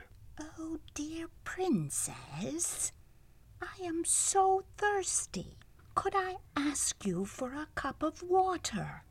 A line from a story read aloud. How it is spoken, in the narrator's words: The old woman timidly said